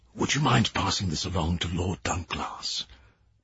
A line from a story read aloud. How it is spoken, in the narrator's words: He whispered